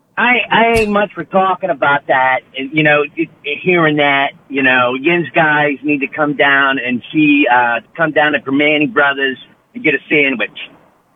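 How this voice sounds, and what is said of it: Pittsburgh accent. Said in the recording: “Can you do a Pittsburgh accent for me? What does a Pittsburgh accent sound like? ... Yeah, that sounds about right.”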